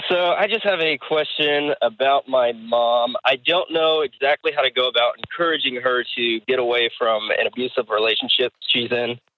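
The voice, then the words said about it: Voice affected by a cold. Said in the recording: “I've been fighting a bit of a cold, so I'm sorry if my voice isn't exactly pleasant.”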